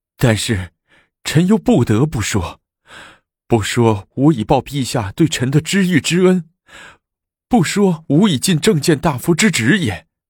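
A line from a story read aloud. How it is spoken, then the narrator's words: Tearful voice. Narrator (Chinese): 带着哭腔说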